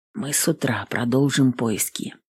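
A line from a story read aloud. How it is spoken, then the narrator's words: Whisper. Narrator (Russian): прошептал Джеймс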